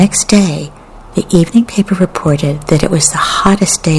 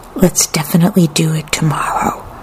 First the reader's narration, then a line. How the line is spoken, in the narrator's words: she whispered in her brother's ear